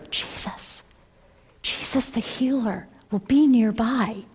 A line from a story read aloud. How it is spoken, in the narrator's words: whispered so the men wouldn't hear